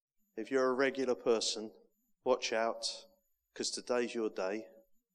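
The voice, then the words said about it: Non-local accent. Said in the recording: “my accent ... I'm not from round here ... my uh, dulcet tones”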